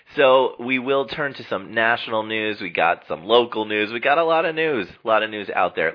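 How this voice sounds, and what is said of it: Weak, fading sick voice. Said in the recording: “my voice is fading a little bit ... I'm getting the flu”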